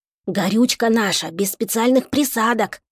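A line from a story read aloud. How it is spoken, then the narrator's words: Whisper in ear. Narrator (Russian): шепнул Чака на ухо Ивану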